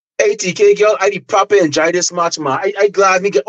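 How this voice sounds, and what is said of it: Guyanese accent. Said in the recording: “I got into my Guyanese accent”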